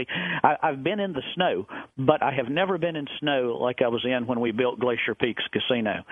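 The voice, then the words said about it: Southern American accent. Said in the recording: “you hear my southern accent. I'm a southern boy”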